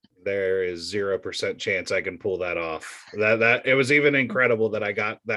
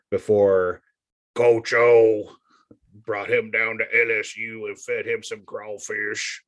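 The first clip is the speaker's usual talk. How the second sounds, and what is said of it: Good Coach O impression. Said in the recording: “That's a good impression. ... That's pretty good. ... in that accent.”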